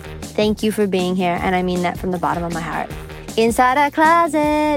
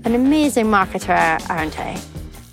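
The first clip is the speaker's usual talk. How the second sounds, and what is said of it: Irish accent. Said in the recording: “A little Irish accent”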